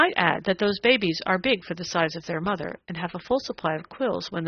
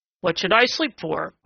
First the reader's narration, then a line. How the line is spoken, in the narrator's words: grumbled Prickly Porky